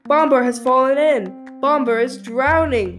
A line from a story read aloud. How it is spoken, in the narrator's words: he cried